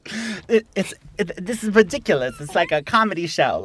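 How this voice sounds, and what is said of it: Exaggerated Bronx New York accent. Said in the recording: “bad impression ... You make me sound very from the Bronx.”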